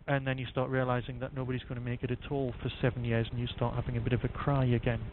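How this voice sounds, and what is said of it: Northumbrian English accent. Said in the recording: “Vampires in Doctor Who in Northumberland and as you can probably guess from my accent, that's where I'm from anyway.”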